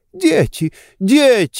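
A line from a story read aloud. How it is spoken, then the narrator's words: Female exclamation. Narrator (Russian): воскликнула она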